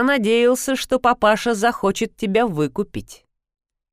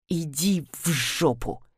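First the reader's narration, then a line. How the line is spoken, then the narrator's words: Through gritted teeth. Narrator (Russian): процедил Атли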